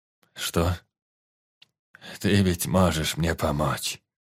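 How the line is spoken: Sighing. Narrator (Russian): вздохнул

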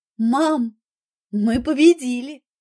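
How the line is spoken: Joyful speech. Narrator (Russian): радостно сказала Ольга

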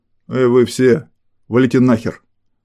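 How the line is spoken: Menacing growl. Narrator (Russian): Грозно прорычал Толик

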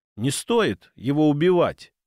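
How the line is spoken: Almost calm. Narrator (Russian): произнесла девушка почти спокойно

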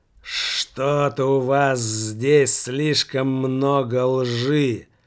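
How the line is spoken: Hoarse drawl. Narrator (Russian): протянул Иван Бобылев хриплым голосом

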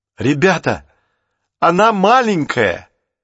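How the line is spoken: Exclaiming. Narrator (Russian): воскликнул Джейсон

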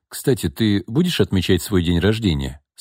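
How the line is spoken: Plain question. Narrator (Russian): спросил Руслан

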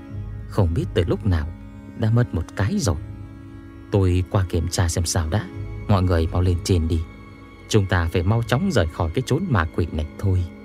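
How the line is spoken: Quiet, hushed. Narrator (Vietnamese): lo A Hương nghe thấy sẽ sợ hãi, liền nói nhỏ

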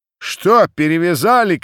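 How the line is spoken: Cossacks shouting from below. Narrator (Russian): кричали им снизу запорожцы

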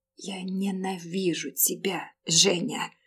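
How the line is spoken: Tearful sniffling whisper. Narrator (Russian): Шмыгнув носом, я ... прошептала

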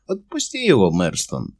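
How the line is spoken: Quiet. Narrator (Russian): негромко сказал Верин

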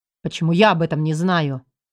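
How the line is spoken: Growling. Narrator (Russian): рычал Елистратов

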